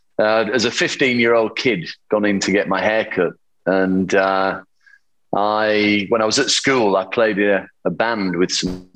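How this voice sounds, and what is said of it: Yorkshire English accent. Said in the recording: “my accent is still very Yorkshire”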